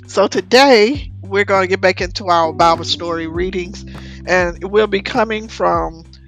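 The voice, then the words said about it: Hoarse voice. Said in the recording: “excuse my voice, I woke up this morning, I was hoarse. ... I laid down last night with sore throat ... I think that's what made me a little hoarse, and my throat is a little sore”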